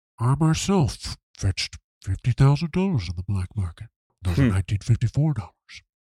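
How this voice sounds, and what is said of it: Imitates a movie character's voice. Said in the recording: “How's that impression?”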